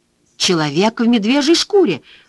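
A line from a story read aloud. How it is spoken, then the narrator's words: Exclamation. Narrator (Russian): воскликнула Джоанна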